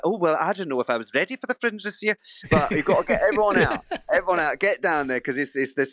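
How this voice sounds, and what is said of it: Impression of a mother-in-law. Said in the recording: “my best impression, which is my mother-in-law”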